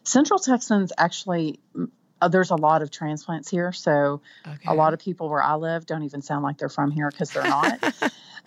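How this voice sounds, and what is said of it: Twangy Texas Panhandle accent. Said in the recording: “I'm from the Panhandle, which is the top part of Texas. We tend to be a little twangier.”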